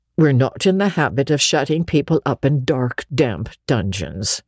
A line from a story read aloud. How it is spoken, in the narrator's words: said Marilla dryly